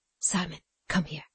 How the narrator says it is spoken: said Cassie, in a whisper

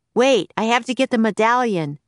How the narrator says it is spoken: shouted Jack

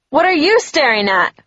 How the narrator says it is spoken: She sneered

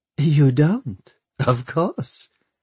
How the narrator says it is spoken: she laughed

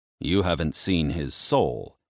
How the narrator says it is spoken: Hades muttered

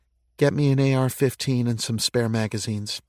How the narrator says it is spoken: said to him in a low voice

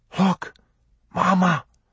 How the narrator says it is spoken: she gasped

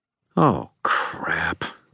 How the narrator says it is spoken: Gray sighed

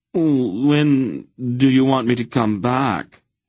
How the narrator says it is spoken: he whined

